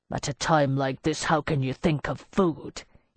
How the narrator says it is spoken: he growled in annoyance

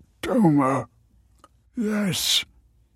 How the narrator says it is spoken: muttered Michael pensively

